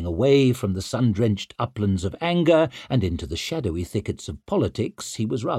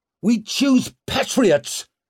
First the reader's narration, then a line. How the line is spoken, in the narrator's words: shouted Brock, but with less conviction